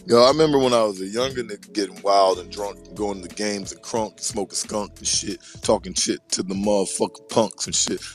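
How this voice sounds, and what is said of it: Hoarse, strained voice. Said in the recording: “why I sound like I sound right now ... I don't want to lose my voice no more”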